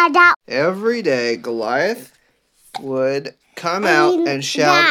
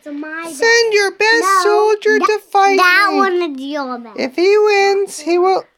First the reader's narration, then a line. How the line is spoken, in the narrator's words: Goliath shouted